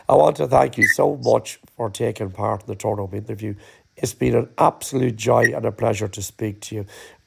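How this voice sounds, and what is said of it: Strained voice about to give out. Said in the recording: “my voice is just about to go”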